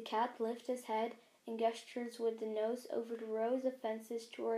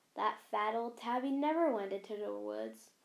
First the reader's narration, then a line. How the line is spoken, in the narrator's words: Rusty scoffed